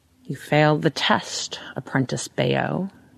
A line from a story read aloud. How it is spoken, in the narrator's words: he says, in an odd, throaty voice, as though he were underwater